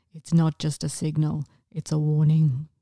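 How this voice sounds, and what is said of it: Impression of Batman's voice. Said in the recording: “people were losing it over Robert Pattinson's Batman voice ... That was a really good impersonation. ... I was about to say that was terrible.”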